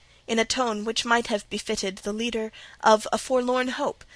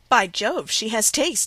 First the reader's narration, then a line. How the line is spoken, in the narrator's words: exclaimed Henry Lynn